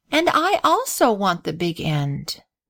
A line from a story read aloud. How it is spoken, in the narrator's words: replied Grace with a sigh